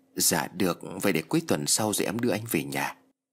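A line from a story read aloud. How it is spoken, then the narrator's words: Soft reply. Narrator (Vietnamese): Nhi liền khẽ đáp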